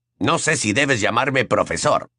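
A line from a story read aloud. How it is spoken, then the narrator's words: Growling voice. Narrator (Spanish): gruñó la voz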